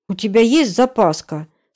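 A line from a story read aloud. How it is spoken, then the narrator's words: Irritated question. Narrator (Russian): спрашиваю раздраженно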